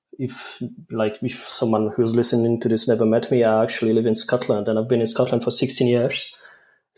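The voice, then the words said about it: Polish accent with Scottish mix. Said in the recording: “wonderful and unique accent ... I think I've got a mix of the accents. Some people say my accent is like from Western Islands ... the accent is mainly Polish with a mix of Scottish”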